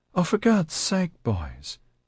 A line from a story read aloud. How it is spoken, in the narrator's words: a chirpy female voice said